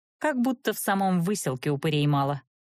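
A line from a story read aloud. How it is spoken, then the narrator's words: Smirking snort. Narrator (Russian): хмыкнула я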